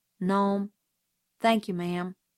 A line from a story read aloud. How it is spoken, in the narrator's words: he drawled softly